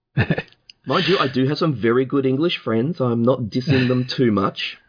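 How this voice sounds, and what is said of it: Australian accent. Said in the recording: “I do have an Australian accent, but I have found that a lot of people in the US actually mistake me for English rather than Australian”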